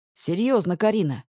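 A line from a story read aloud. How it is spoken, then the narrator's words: Strained through clenched teeth. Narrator (Russian): цежу сквозь зубы, с трудом сдерживая себя, чтобы не взорваться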